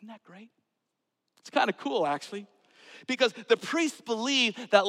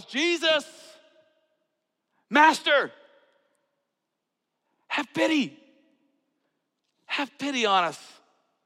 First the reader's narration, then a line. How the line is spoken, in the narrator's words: they called out in a loud voice